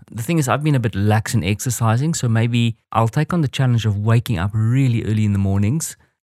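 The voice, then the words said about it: African English accent. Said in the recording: “it's the African accent coming through there”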